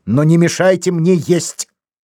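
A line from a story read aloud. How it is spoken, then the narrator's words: Shout. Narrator (Russian): Станислав Демба крикнул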